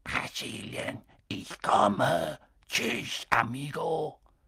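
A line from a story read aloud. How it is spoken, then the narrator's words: Quiet hissing voice. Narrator (German): eine leise, zischende Stimme sagte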